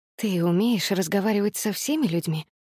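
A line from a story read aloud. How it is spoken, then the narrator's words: Whispered. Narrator (Russian): прошептала я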